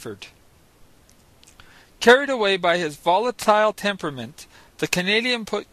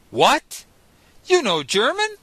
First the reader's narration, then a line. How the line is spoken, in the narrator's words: I exclaimed